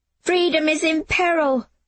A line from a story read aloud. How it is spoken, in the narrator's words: Jamie shouted, running ahead